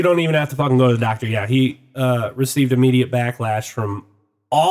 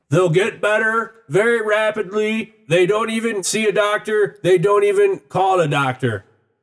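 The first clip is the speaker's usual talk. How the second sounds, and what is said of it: Imitates another person's voice. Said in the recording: “my Trump impression”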